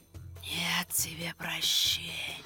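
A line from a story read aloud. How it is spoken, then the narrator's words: Hissed. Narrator (Russian): Прошипела она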